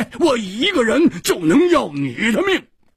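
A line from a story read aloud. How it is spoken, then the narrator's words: Loud roar. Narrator (Chinese): 胡铁花大声地吼着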